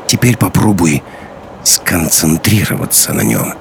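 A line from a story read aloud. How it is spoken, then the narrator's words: Professor speaking quietly. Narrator (Russian): тихо сказал профессор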